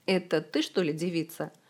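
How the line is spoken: Mocking. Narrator (Russian): насмешливо произнес он

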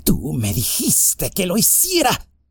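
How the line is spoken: Hissing. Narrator (Spanish): siseó

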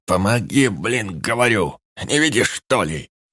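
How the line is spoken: Barked reply. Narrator (Russian): Рявкнул он в ответ

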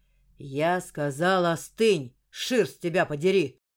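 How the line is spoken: Growled, telepath. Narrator (Russian): прорычал телепат

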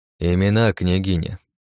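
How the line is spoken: Plain. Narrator (Russian): сказал

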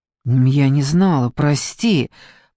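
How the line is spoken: Mumble. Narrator (Russian): пробормотала Даниэла

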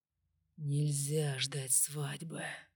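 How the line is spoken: Whisper. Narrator (Russian): прошептал Джеймс

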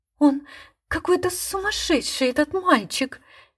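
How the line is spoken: Frightened, embarrassed whisper. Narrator (Russian): Испуганно и смущенно шептала она

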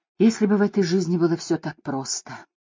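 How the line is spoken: Lifeless whisper. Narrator (Russian): безжизненным голосом прошептала Шакила

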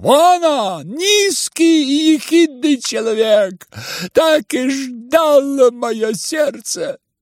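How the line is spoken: Shouted at once. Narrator (Russian): немедленно закричала

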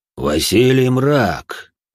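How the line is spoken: Deep guttural chilling voice. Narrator (Russian): утробным голосом, от которого внутри все задрожало, произнесла тьма

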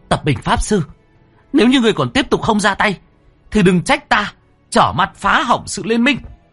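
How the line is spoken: Sudden shout. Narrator (Vietnamese): Bất chợt cô anh hét lên

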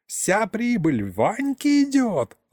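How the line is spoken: Old man yelling. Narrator (Russian): орал дед

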